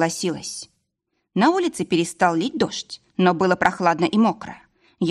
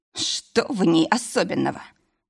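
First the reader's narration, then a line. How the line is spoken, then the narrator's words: Grumbled under breath. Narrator (Russian): проворчал про себя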